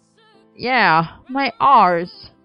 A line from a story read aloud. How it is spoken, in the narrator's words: Merlin groaned